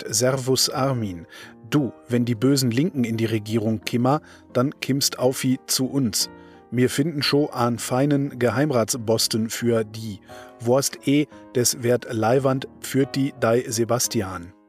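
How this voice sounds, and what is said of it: Put-on Austrian accent. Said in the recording (German): “Österreichischer Akzent ... da steht extra österreichischer Akzent ... mit österreichischem Ach, Akzent”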